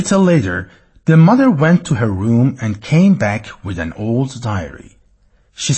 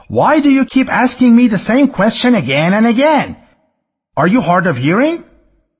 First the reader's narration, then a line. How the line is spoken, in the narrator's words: the son shouted at his mother